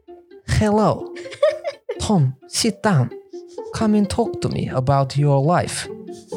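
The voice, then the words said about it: Old grandfather with put-on Russian accent. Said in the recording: “sounded like a Russian ... why are you Russian? ... I get into characters”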